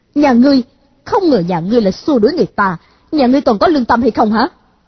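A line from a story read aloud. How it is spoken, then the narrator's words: Angry. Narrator (Vietnamese): A Khắc Đan tức giận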